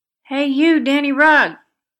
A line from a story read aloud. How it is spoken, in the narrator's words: cried Bert